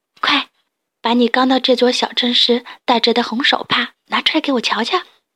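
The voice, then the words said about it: Soft whispered voice. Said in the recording (Chinese): “小声”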